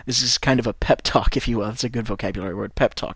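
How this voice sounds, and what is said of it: Generic Midwestern American accent. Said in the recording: “I have an American accent ... The accent that I have is kind of a Midwestern accent. It's a very generic American accent.”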